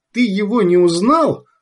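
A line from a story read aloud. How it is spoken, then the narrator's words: Desperate cry, woman. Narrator (Russian): отчаянно вскрикнула женщина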